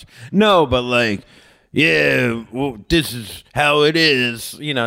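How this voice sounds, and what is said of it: Imitates another person's voice, not well. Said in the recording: “that impression... You weren't doing a good impression of him”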